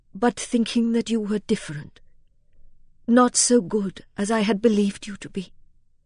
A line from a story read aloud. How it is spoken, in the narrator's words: She made a great effort over herself to say in a low, tremulous voice